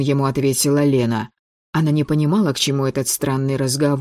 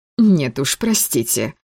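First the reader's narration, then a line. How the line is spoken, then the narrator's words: Slightly irritated. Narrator (Russian): слегка раздраженно сказала Лена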